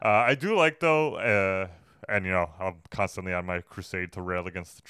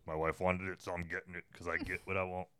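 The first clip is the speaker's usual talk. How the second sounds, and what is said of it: Imitates a movie character's voice. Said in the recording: “That's my impersonation, even though it sounds nothing like him.”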